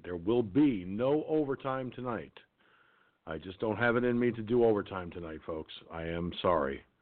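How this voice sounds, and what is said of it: Gravelly, tired voice. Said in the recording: “my voice is starting to get gravelly, which is a sign that I'm exhausted”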